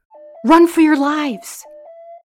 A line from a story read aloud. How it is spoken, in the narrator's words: From the other room, their boss shouted